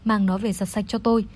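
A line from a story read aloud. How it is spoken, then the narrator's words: Cold voice. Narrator (Vietnamese): lạnh lùng nói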